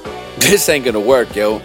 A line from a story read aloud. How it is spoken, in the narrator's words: I said laughing